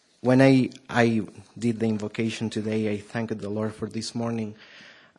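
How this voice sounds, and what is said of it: Strong Argentine accent. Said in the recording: “I have a really strong accent, okay? That's because I'm from Argentina.”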